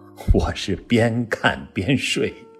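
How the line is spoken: Snickering. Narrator (Chinese): 李碧华偷笑说

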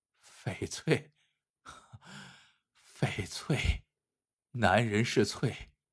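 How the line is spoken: Muttering to himself. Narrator (Chinese): 冯生 喃喃自语

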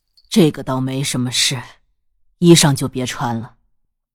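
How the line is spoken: Flat, indifferent. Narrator (Chinese): 淡淡道

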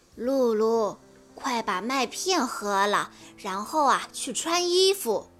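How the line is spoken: Sighing father. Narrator (Chinese): 爸爸叹着气说

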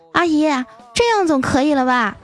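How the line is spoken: Boy shouting from upstairs. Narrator (Chinese): 那小男孩在楼上大声地喊

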